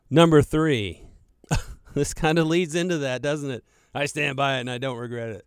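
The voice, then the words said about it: Southern rural American accent. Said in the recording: “You sound like a redneck. ... I've worked on the redneck for a little bit. I've tried to get that out of my system”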